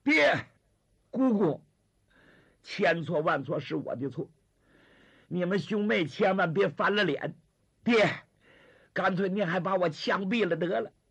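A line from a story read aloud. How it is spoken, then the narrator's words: Sobbing in anguish. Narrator (Chinese): 张学良哭痛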